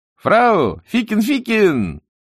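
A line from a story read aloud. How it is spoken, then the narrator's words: Shouted. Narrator (Russian): солдат призывно кричал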